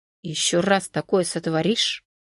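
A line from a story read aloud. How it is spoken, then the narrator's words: Grim, through gritted teeth. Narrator (Russian): с мрачным видом процедил сквозь зубы Константин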